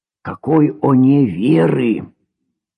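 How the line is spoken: Whispered question. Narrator (Russian): Коля Рындин шепотом спрашивал

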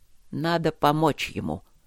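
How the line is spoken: Quiet but audible command. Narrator (Russian): Тихо, но слышно для всех повелел настоятель Оджи

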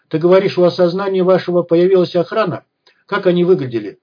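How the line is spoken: Plain. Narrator (Russian): спросил Вадим

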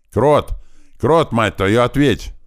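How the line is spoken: Shouting into radio. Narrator (Russian): закричал в рацию

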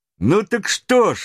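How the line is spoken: Unabashed exclamation. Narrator (Russian): воскликнул ничем не смущавшийся Роберт

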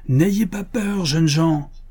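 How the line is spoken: Sudden thundering voice. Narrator (French): tonna soudain la voix de Buffalo Bill

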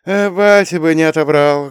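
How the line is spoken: Sad sigh. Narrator (Russian): грустно вздохнул Вова

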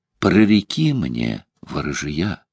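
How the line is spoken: Quiet young woman pleading. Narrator (Russian): Девушка попросила тихо

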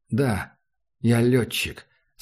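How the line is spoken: Quiet. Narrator (Russian): сказал Макс негромко

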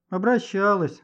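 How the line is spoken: Woman's sigh. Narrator (Russian): вздохнула женщина

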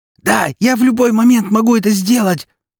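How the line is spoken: Hoarse shout. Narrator (Russian): хрипло крикнула она

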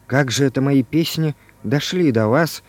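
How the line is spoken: Quiet question. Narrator (Russian): спросил Иван Иванович тихо

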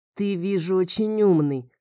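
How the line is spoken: Through gritted teeth. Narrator (Russian): сквозь зубы сказал парень

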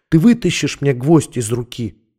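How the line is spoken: Calm whisper. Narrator (Russian): прошептал он спокойно

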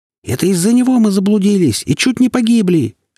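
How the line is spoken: Shrieking. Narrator (Russian): завизжал Том-паук

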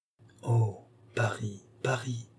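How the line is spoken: Murmured. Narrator (French): murmura-t-il

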